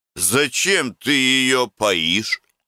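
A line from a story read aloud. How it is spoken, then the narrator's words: Plain. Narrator (Russian): спросил Гордей Евстратыч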